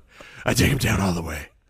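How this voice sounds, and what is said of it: Bad Batman voice impression. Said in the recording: “my best Batman impersonation ... It's the worst.”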